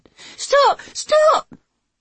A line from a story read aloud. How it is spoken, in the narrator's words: Zack was squealing with terror, all his bravado gone